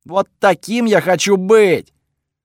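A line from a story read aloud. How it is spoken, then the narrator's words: God yelling inside head. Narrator (Russian): Пока бог орал у меня в голове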